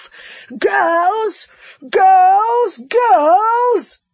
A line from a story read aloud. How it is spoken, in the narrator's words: he bellowed